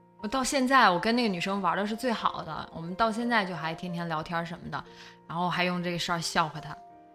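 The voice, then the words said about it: Heavy Northeastern Chinese accent. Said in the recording (Chinese): “我现在东北口音太重了”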